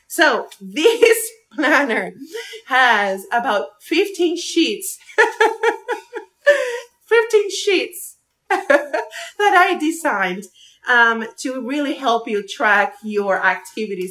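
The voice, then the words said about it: English with a Spanish accent. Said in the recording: “I speak English with a Spanish accent.”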